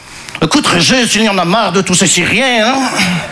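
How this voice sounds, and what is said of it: Put-on Belgian French accent. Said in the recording (French): “je prends l'accent belge parce que je ne sais pas faire l'accent chinois”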